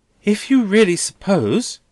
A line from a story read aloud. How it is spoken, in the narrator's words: Rosa pleads with him, turning paler,